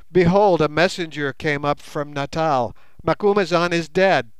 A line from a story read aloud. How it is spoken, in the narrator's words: cried